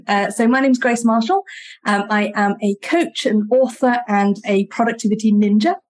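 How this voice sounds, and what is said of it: British accent. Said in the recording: “As you might be able to tell by my accent, I'm based in the UK”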